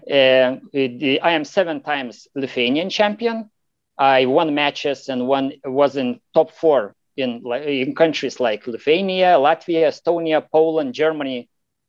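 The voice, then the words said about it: Lithuanian accent. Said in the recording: “you've got a unique accent ... I'm from Lithuania. It's Eastern Europe.”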